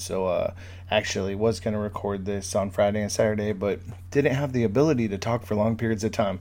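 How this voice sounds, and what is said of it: Slightly funny, congested-sounding voice. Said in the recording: “my voice sounds a little bit funny. I'm just getting over a little bit of a cold”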